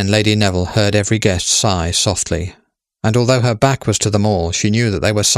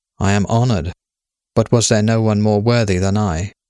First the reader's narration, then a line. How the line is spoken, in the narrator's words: She heard herself say calmly